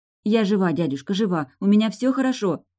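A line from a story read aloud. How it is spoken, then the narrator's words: Rapid chatter. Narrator (Russian): тараторила я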